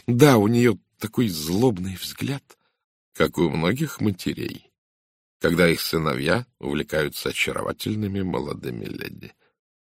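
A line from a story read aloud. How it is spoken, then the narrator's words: Mutter. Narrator (Russian): пробормотал Жерар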